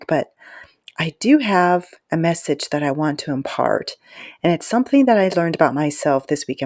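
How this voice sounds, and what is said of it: Whispering. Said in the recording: “I don't know why I'm whispering. I think it's because it's late and really quiet”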